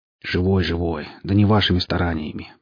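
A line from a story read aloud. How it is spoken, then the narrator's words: Grumbling young man. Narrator (Russian): проворчал парень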